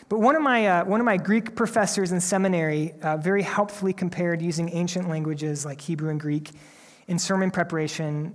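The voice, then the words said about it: Slightly tired voice. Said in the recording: “my voice is a little bit tired, and I'm a little bit tired”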